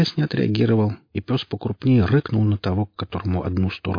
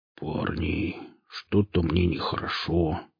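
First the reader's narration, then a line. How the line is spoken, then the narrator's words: Muttered. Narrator (Russian): пробормотал Велес, садясь на снег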